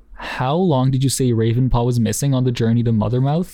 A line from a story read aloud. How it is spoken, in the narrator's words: asked Darkstripe